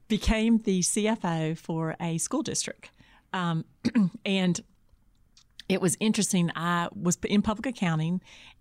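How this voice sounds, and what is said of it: Congested voice from a cold. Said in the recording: “I have a bad cold today”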